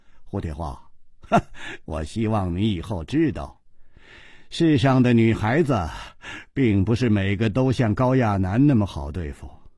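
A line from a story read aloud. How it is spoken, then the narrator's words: Laughing despite himself. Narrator (Chinese): 楚留香瞧着胡铁花的苦脸，也忍不住笑着说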